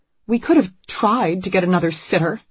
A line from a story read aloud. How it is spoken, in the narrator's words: Anne says bitterly